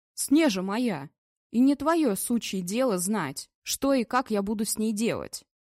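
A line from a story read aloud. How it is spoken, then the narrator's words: Helpless growl. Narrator (Russian): Вадим беспомощно зарычал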